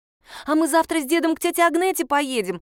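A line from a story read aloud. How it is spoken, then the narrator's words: Joyful. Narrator (Russian): радостно сказала Яночка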